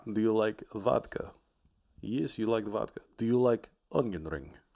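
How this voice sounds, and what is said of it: Terrible fake Russian accent. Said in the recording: “a terrible Russian accent”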